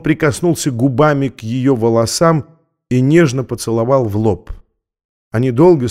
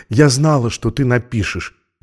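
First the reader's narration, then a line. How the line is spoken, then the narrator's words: Whisper. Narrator (Russian): добавила шепотом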